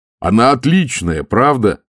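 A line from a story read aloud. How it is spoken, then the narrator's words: Fervent exclamation. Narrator (Russian): с жаром воскликнул Моркоу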